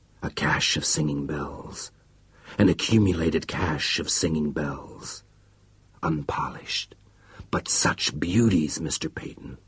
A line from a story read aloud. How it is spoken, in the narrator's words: Cornwell whispered